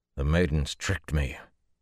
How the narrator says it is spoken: he said grimly

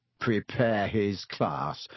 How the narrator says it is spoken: Ron sneered after him

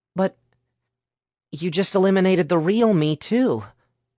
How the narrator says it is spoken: Sasha said in a hurt voice

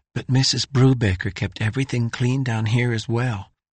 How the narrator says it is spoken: whispered Sandy Whittaker

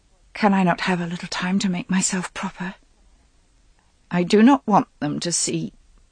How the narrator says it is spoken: She said, her voice catching in her throat

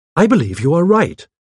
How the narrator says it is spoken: I exclaimed

